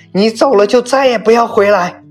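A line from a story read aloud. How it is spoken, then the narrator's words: Angry shout. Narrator (Chinese): 吴雅文似乎很生气地喊道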